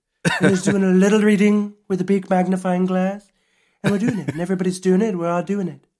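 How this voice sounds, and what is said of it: Imitates another person's voice. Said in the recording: “I feel like I sounded like Trump there... That's a very good impression... It wasn't nasally enough. Like, I wasn't doing the sniff”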